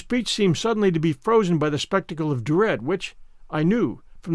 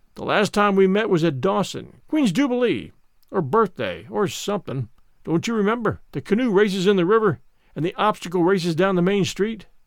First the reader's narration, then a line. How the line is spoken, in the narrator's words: His face showed desperate, for all his voice sounded hearty and genial, as he said